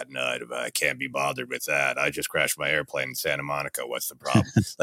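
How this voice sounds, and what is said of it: Low, flat deadpan Harrison Ford impression. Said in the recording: “his Harrison Ford impression ... capturing the real low deadpan and almost everything's down here real low and real flat”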